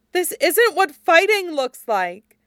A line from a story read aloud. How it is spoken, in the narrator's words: Jiang Yanli cried